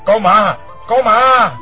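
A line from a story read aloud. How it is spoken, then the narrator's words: Staggering howl. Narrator (Vietnamese): Hoa Thiết Cán loạng choạng rú lên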